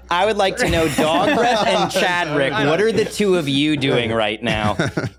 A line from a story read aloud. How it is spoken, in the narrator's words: Just shouting